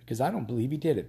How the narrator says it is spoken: Ben said

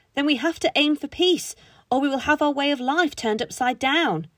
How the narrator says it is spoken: the voice shouted

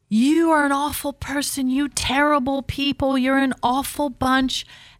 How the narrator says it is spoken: this whole group of protesters walking behind me started yelling

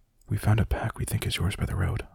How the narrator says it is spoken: I whispered

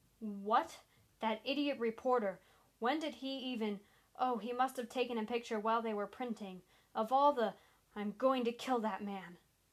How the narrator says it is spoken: Sanders began shouting

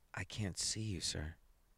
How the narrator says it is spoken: he whispered

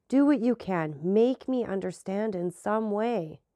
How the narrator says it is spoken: cried he

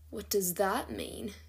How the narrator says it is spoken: Quinlan asked quietly

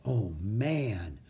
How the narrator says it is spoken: whispered Jack

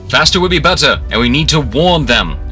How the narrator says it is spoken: would shout something like

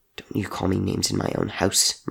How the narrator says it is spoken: Murdoch hissed back

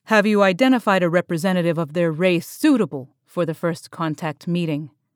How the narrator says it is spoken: asked Gornarak

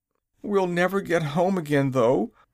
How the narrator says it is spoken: declared Zeb with a groan

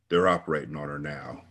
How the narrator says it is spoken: he said flatly

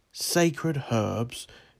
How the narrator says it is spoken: exclaimed a Sicilian Greek

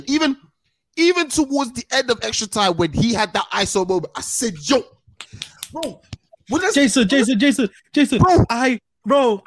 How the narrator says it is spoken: I shout

